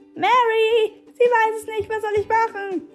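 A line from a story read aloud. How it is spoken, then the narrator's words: Shouting voice. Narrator (German): schrie die Stimme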